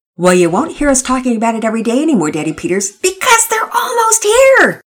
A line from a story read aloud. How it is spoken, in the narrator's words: Pearson shouted excitedly